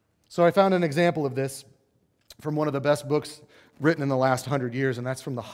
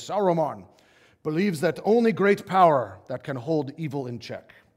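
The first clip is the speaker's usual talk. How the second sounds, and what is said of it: Imitates the wizard Gandalf's voice. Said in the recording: “my Gandalf impression.”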